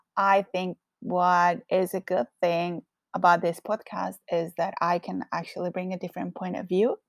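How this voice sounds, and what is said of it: Strong Colombian Spanish accent. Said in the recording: “I am originally from Colombia. So, yes, I do have a very strong accent”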